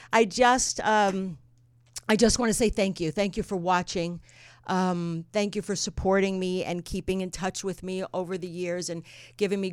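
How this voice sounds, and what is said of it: Trembling, nervous voice. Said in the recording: “I am a little nervous ... My voice is trembling”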